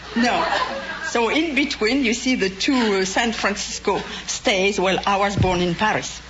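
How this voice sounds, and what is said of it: French accent. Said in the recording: “judging from your accent, you must have remained in France.”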